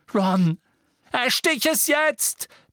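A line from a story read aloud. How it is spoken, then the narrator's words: Shouting. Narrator (German): brüllte Harry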